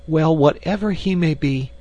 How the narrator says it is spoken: cried the girl

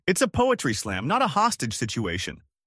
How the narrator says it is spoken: A man in a beret shouted

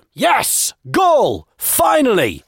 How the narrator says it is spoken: he shouted

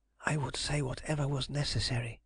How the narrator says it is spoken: she whispered

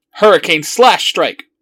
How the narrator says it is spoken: Wizard yells

